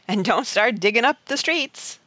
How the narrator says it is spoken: laughed Mountain Jim

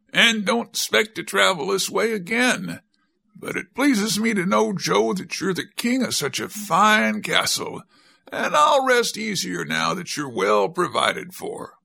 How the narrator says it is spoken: exclaimed Captain Bill

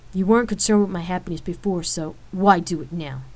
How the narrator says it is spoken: She snapped with anger in her voice

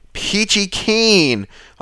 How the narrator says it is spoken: I holler back

